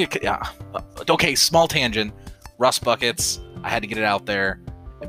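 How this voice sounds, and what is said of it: Usual voice. Nothing is said of it.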